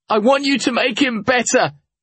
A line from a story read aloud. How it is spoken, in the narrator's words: I yelled, interrupting